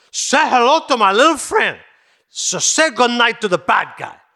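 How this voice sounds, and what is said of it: Deliberately bad movie-gangster impression. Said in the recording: “doing Al Pacino doing Tony Montana ... giving a bad impression”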